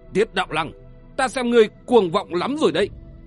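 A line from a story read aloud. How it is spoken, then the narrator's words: Harsh, stern voice. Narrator (Vietnamese): Quái nhị Lý Nguyên Hồng gằn giọng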